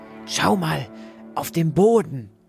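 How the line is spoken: Whisper. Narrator (German): flüsterte sie

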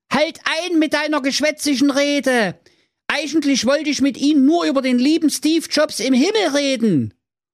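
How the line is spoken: Foolish man calling. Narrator (German): der törichte Thorsten rief

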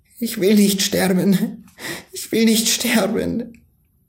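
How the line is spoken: Pleading. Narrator (German): Er rang die Hände und flehte

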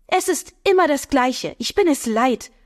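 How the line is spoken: Loud agitated woman. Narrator (German): erregte Frauenstimme laut und deutlich

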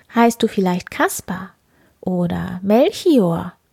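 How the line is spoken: Plain question. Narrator (German): fragte die Königin

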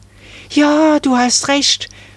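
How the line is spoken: Excited call. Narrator (German): rief da Marie aufgeregt

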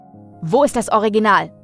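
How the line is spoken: Brusque interruption. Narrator (German): unterbrach ihn Arthur zum zweiten Mal, schroff

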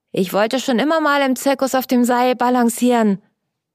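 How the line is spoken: Delighted exclamation. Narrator (German): rief er erfreut aus

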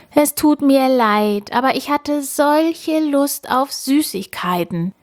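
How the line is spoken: Whining robber. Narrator (German): jammert Räuber Ole

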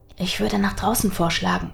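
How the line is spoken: Whisper. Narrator (German): wisperte Nathaniel

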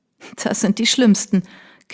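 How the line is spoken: Laughing again. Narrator (German): Kate lachte erneut

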